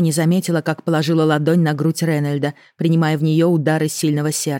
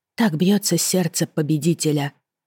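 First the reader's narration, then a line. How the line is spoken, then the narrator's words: Quiet. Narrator (Russian): сказала негромко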